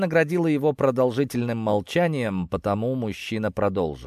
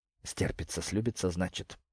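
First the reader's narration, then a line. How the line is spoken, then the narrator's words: Angry, through clenched teeth. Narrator (Russian): гневно процедила Ирина сквозь зубы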